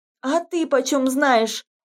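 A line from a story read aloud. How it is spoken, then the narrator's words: Shouting. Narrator (Russian): закричала Таиска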